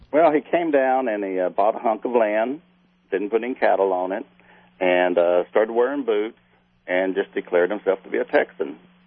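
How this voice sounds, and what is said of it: Real Texas accent. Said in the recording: “what a real Texas accent sounds like”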